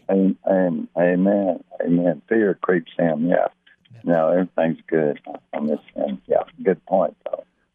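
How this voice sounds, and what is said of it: Slightly rough, raggy voice. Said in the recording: “my voice is a little raggy”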